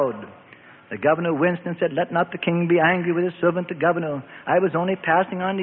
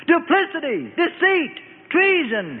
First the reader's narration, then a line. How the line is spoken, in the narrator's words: Herod screamed